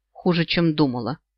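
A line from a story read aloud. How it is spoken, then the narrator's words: Grumbled. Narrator (Russian): буркнула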